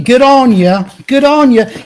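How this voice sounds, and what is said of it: Put-on Australian accent. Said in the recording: “amazing accent that you were just doing, your Australian accent”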